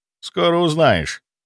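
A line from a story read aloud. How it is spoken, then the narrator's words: Dry reply. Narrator (Russian): сухо ответил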